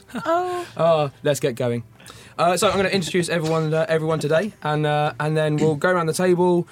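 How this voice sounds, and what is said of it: Hoarse voice. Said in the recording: “my true love gave me laryngitis.”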